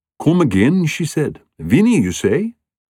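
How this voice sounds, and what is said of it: Thick Irish accent, woman's voice. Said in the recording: “with a thick Irish accent ... her brogue”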